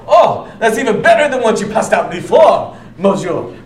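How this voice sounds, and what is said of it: Put-on French or Italian accent. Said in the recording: “He's clearly French or Italian. That was a spot-on accent”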